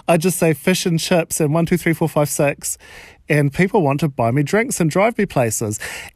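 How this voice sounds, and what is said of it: New Zealand accent. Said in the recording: “I've got the sexy accent ... It doesn't really work with a New Zealand accent”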